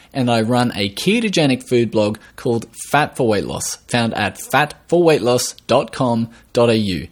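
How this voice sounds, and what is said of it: Australian accent. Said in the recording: “I am from Australia, if you hadn't already guessed from the accent”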